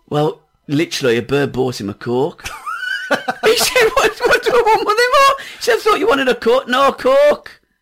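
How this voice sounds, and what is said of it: Put-on Geordie accent. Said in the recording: “He's suddenly gone Geordie.”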